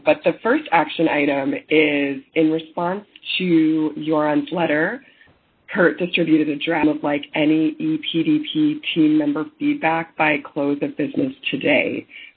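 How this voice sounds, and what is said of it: Rough, sick-sounding voice. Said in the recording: “excuse my voice, I'm a little bit ill”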